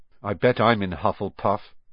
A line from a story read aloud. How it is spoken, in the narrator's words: said Harry gloomily